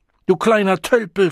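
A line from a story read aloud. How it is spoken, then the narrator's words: Screaming. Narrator (German): schrie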